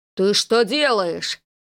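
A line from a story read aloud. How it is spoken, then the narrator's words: Uncle's roar. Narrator (Russian): взревел дядя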